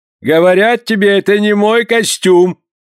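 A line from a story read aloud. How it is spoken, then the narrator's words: Angry shout. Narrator (Russian): закричал Порпора, выходя из себя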